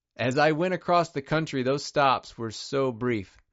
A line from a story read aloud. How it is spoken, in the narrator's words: Penton says